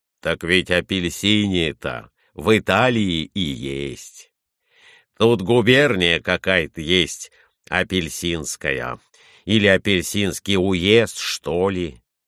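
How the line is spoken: Plain. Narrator (Russian): сказал Николай Иванович

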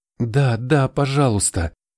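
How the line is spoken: Pleading old woman. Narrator (Russian): взмолилась старуха

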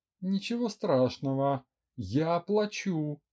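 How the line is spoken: Forced out, seething rage. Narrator (Russian): закипая от ярости, выдавила из себя Лера

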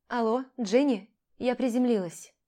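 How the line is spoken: Slightly tired, into phone. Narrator (Russian): проговорила я в телефон немного уставшим голосом

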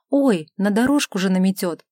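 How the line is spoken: Exclamation. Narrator (Russian): воскликнула женщина

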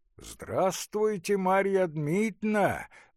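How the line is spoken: Resonant pleasant exclamation. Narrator (Russian): воскликнул звучным и приятным голосом всадник

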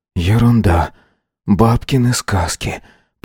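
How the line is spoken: Whisper. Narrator (Russian): прошептал Вейка

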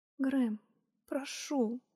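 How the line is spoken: Pleading. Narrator (Russian): взмолилась

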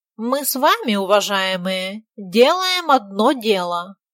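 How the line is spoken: Nasal drone. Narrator (Russian): гнусавил он

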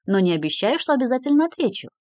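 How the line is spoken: Cheerful agreement. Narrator (Russian): весело согласился Нельсон

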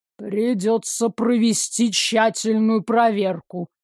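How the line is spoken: Grumbled. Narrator (Russian): пробурчал он

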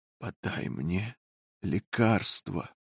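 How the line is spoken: Barely audible. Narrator (Russian): сказала еле слышным голосом

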